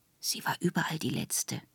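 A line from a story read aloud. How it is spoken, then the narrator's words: Whispering. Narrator (German): flüsterte Plombe uns zu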